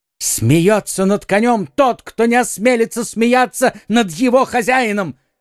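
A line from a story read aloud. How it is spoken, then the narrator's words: Furious exclamation. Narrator (Russian): воскликнул в бешенстве подражатель де Тревиля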